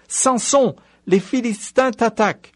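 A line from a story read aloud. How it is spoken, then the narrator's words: Exclaimed. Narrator (French): s'écria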